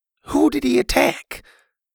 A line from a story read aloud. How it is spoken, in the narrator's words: Bo sighed